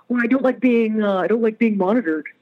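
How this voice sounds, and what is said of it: Imitates another person's voice. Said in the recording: “I enjoyed your imitation right there”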